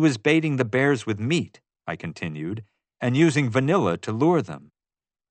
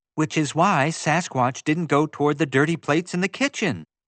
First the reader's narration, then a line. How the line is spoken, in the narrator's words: Summer exclaimed